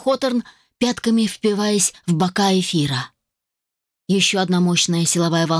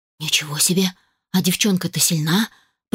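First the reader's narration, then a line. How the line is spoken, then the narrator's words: Muttered. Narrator (Russian): пробормотал он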